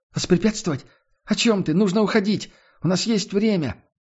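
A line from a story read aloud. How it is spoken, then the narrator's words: Exclaimed. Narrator (Russian): воскликнула Несс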